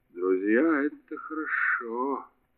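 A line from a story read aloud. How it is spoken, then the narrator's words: Muttered. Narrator (Russian): пробормотал Кеттерли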